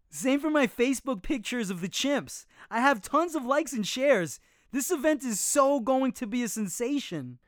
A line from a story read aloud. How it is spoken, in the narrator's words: Another kid exclaimed